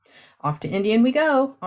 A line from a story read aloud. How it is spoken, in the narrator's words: Auntie G called out